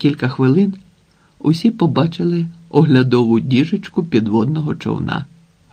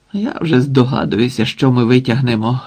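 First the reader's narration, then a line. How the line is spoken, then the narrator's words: Sighing. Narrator (Ukrainian): зітхнув Сенько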